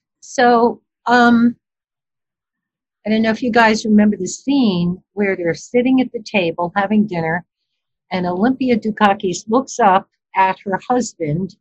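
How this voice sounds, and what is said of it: Mild Brooklyn accent. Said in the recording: “I'm a Brooklyn Italian... without the really heavy Brooklyn accent. I know I still have an accent”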